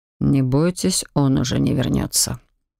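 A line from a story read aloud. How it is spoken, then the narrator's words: Quiet reassuring male voice. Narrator (Russian): тихо заверил незнакомый мужчина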